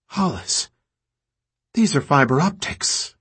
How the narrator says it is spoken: Michael said, his voice lit with amazement

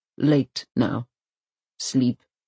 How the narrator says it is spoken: he growls

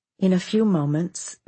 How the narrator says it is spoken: Vicky said calmly

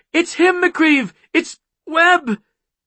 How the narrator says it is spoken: Chloe cried

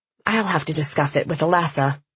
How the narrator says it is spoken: she said

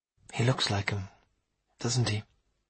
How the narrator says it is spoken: she asked quietly

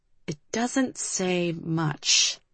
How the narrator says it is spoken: Liv murmured

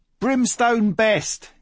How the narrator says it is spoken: yelled Swiney above the din

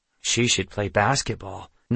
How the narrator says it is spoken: Nox murmured

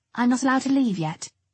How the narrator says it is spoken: I said

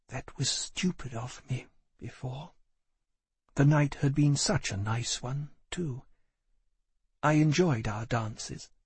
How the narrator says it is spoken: She said, quietly and slowly

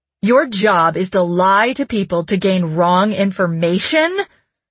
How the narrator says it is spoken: Jesse said in a furious voice

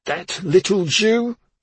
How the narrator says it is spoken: she spat

